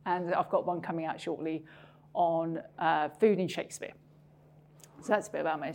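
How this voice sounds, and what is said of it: Non-Scottish accent. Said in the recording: “as you can tell from my accent ... I haven't acquired a Scottish accent, as you can probably hear”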